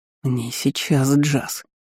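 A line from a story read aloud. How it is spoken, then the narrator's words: Through gritted teeth. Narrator (Russian): процедил сквозь зубы Стейнер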